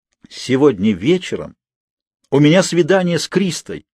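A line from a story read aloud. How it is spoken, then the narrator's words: Delighted exclamation. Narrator (Russian): восторженно воскликнул джентльмен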